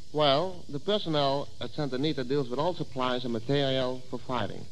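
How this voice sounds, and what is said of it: Dutch accent. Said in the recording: “I can't figure out your accent. ... I'm from Holland”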